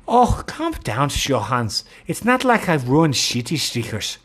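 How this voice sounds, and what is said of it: Poor attempt at Danish accent. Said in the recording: “I clearly can't do a Transylvanian accent, nor can I do a Danish one.”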